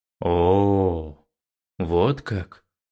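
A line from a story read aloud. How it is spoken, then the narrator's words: Demon's drawl. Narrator (Russian): Протянул демон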